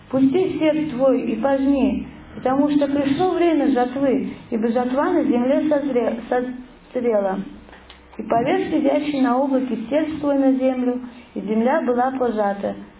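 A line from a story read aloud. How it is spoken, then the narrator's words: Loud exclamation. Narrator (Russian): другой ангел воскликнул громким голосом к сидящему на облаке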